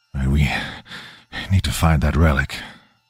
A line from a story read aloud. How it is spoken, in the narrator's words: Donovan said, his voice tight